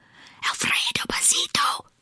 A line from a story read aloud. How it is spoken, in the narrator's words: whispered the crowd